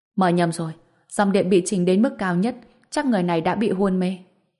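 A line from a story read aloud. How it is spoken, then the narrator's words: Shocked shout. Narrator (Vietnamese): người đó mới kinh ngạc hét lên, nói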